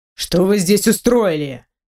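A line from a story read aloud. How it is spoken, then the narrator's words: Menacing voice. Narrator (Russian): Раздалось грозно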